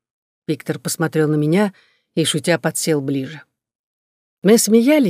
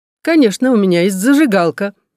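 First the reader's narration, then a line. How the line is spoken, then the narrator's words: Laughing. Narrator (Russian): засмеялся Макс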